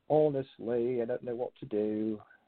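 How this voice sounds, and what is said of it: Terrible put-on British accent. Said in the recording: “my terrible British accent”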